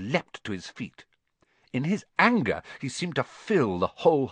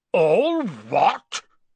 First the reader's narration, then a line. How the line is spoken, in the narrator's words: Hagrid thundered